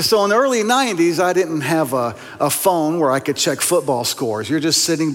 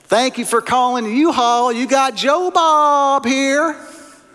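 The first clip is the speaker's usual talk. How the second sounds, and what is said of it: Thick East Tennessee accent. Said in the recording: “I'll answer the phone in a very thick East Tennessee accent ... the accent in East Tennessee is, is, is very, very peculiar”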